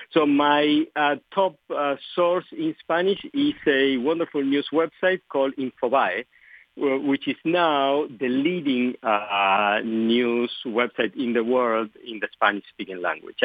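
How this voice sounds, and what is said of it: Argentine Spanish-accented English. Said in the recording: “as you can tell from my accent, English is not my native language. I was born and raised in Argentina, where we speak Spanish predominantly”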